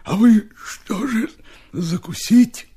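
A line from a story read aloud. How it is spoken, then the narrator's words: Strained words through chewing. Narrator (Russian): Прожевывая кусок икры, Степа выдавил из себя слова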